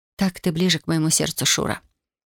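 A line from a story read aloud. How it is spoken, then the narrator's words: Whispered. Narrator (Russian): прошептала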